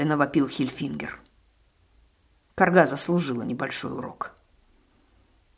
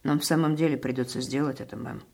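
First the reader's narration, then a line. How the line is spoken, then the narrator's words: Plain. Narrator (Russian): сказал он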